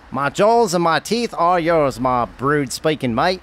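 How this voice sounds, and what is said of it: Speaks in a put-on accent. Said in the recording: “I'm taking a liking to your little accent”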